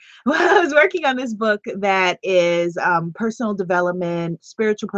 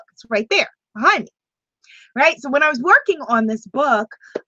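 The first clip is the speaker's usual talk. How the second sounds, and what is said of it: Loud, yelling delivery. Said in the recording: “why am I yelling?”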